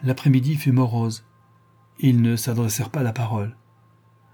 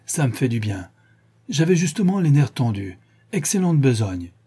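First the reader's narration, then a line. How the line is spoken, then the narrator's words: Exclamation. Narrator (French): s'écria-t-il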